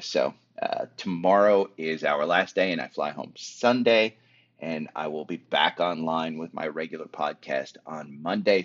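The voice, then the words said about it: Tired, exhausted-sounding voice. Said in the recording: “as you can hear from my voice, I'm exhausted.”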